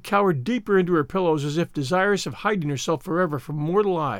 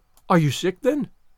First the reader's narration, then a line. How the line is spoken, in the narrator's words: demanded Marilla anxiously